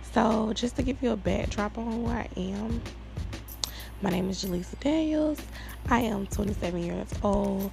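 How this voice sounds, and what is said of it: Tired, worn-out voice. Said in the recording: “I need to be asleep, and that is why I sound this way. ... My voice is done for today”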